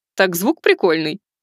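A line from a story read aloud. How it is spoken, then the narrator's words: Cheerful reply. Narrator (Russian): весело ответила Арчиха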